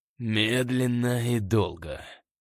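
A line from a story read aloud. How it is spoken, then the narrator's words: Hissed. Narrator (Russian): прошипел Скотт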